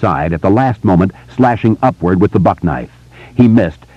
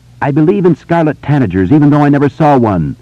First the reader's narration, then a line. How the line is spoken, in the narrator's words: he said in a high, clear voice